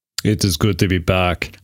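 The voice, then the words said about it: Imitated Terminator-style accent. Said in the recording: “our version of the Terminator ... I was hoping you're going to do that ... That's a pretty good accent”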